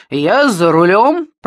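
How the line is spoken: Booming. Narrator (Russian): прогремел Кольберг

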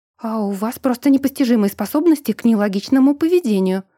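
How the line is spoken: Snapping back. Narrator (Russian): огрызнулась в ответ

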